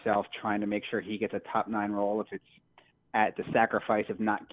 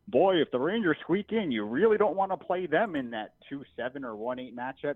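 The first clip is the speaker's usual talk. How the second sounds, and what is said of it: Impression of TV hockey pundits. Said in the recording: “That was a good impression,”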